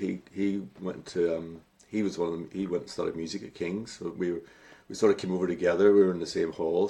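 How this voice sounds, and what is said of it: Derry Northern Irish accent. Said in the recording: “there was a few Derry boys in Derry, in London at the time ... with my accent”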